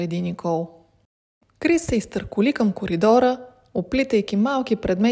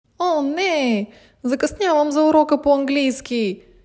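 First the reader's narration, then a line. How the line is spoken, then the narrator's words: Alarmed shout. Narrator (Bulgarian): извика разтревожена Никол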